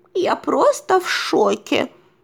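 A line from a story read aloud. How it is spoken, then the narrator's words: Trembling voice. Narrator (Russian): дрожащим голосом ответила Мэйзи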